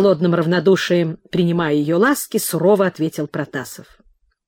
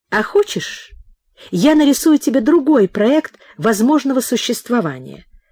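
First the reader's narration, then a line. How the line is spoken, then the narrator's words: Tearful but cheerful. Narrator (Russian): Утирая слезы и бодро улыбаясь, сказала Нина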